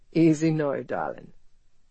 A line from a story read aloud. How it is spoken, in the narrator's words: Ethan said with an uneven laugh, even though he was sweating and aching with his own vicious need